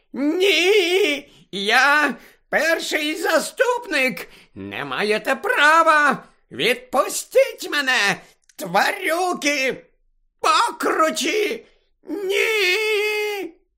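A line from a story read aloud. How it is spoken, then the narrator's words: Shrieking even louder. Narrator (Ukrainian): заверещала іще голосніше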